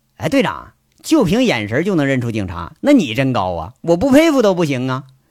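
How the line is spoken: Cold. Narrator (Chinese): 杨组长啊就冷冷说了

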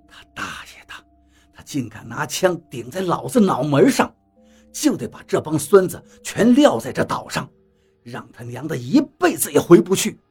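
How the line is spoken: Through gritted teeth. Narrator (Chinese): 张广川咬牙切齿地说道

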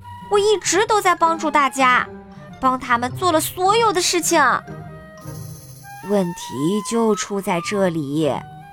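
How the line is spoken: Nearly shouting. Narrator (Chinese): 麦瑞克几乎喊了起来

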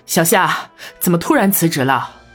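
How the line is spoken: Breathless. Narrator (Chinese): 陈二姨气喘吁吁

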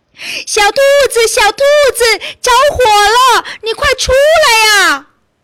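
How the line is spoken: Urgent, frantic shout. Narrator (Chinese): 顿时急得大喊

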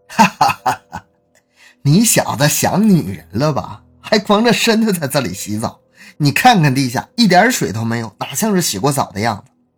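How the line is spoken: Hearty laughter. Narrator (Chinese): 贾青年哈哈一笑

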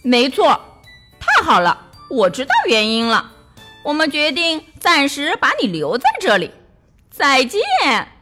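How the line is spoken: Hearty laughter. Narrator (Chinese): 王子哈哈大笑

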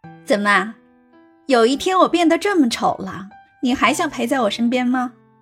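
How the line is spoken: Bright grinning. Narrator (Chinese): 袁依依 笑得灿烂的脸，呲牙咧嘴的说

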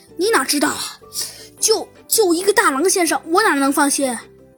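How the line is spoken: Sighing. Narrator (Chinese): 哎，猴子警长叹了口气说道

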